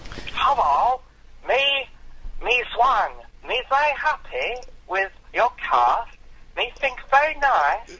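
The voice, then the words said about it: Awful put-on accent like Ting Tong. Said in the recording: “putting your best proletariat accent you can ... the awful accent. You sounded like Ting Tong from Little Britain.”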